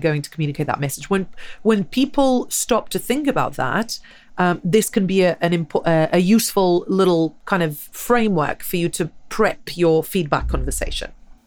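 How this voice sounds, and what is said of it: English accent. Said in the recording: “that's a lovely English accent”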